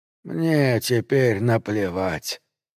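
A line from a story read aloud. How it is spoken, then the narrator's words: Hoarse rasp. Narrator (Russian): прохрипел он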